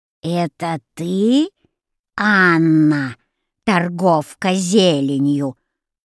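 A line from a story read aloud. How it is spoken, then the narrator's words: Old woman's unpleasant hoarse voice. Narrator (Russian): спросила старуха неприятным хриплым голосом, беспрестанно тряся головой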